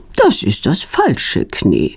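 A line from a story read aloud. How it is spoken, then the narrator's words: Calm. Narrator (German): sagt sie ruhig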